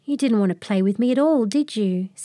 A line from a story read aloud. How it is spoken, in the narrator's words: said Tucker sadly